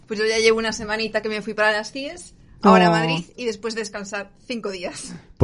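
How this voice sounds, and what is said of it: Galician Spanish accent. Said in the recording (Spanish): “ese maravilloso acento gallego”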